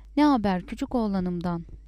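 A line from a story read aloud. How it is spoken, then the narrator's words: Shouting. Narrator (Turkish): diye bağırıyordu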